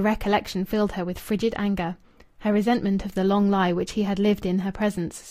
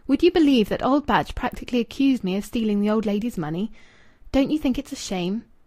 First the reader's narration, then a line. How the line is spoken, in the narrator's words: the exact tone in which he had exclaimed